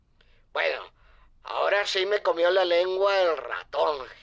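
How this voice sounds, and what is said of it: Spanish (Spain) accent. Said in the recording (Spanish): “Eso es acento español.”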